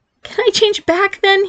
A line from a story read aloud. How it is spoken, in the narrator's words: pleaded